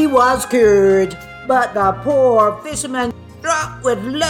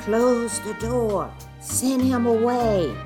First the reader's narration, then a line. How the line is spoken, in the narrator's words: She whispered